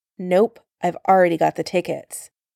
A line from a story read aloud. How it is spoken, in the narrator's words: he said firmly